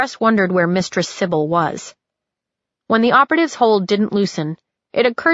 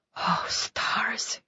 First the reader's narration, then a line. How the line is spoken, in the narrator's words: he muttered